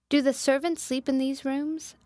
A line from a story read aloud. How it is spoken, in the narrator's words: I asked